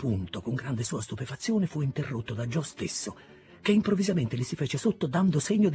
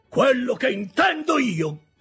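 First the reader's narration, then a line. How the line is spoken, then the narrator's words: Shouted. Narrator (Italian): gridò Joe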